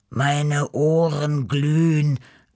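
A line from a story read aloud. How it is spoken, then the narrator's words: Groaning. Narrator (German): stöhnte Beppo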